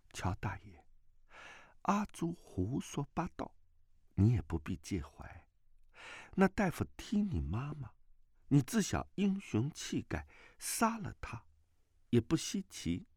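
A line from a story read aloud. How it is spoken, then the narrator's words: Gentle, soft. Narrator (Chinese): 阿朱柔声道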